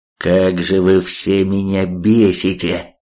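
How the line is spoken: Roaring. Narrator (Russian): Взревел он

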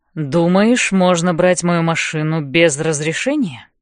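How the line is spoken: Low voice. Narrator (Russian): Говорит низким голосом

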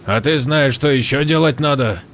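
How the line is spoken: Slightly sharp question. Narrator (Russian): спросил чуть резко Хью

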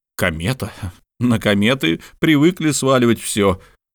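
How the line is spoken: Exclaimed. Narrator (Russian): воскликнул Барбекин

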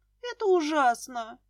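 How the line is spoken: Sobbing woman. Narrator (Russian): всхлипнула жена моего брата

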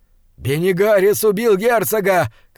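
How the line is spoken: Shouted. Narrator (Russian): крикнул Диорнот

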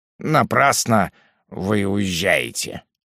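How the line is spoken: Muttered. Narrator (Russian): пробормотал он

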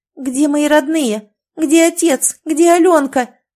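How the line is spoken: Shouting. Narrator (Russian): закричала Маруся

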